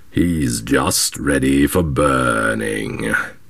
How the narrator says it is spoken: said the black man, with a growl of triumph

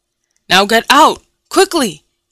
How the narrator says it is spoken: he shouted to me

